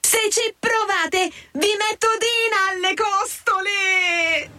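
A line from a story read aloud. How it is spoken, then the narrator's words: Full-lung yell. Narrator (Italian): Alice, con quanto fiato aveva in corpo, urlò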